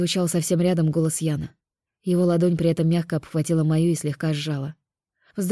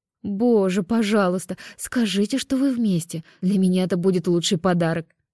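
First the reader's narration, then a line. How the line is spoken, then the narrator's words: Pleading. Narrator (Russian): взмолилась Лера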